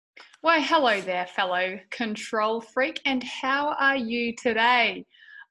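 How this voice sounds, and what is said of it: Slightly strained voice. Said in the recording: “As you can hear, my voice is a little strained.”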